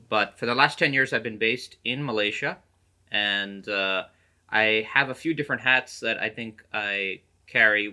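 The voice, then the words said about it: American accent. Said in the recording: “as you could tell by my accent, I do come from thereabouts in the States.”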